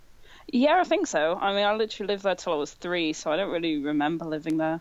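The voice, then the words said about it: Northern English accent. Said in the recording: “Where's that accent from? ... From Leeds. ... I sound northern. ... Yeah, you do.”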